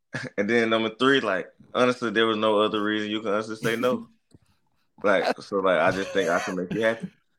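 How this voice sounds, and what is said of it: Southern country Mississippi accent. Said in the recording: “I'm from Mississippi. So, like, I don't know if y'all can tell by the accent. I'm a little country.”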